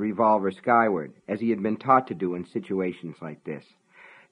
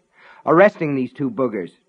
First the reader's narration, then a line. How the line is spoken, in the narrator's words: Norris snapped